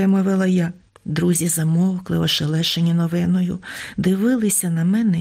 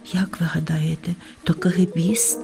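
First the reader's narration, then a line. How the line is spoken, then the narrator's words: Whispered question. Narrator (Ukrainian): пошепки спитала півоня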